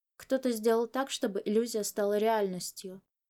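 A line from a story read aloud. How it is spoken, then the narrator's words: Quiet. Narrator (Russian): тихо сказал Чуванин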